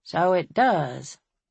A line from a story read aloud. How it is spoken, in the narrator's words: he said dryly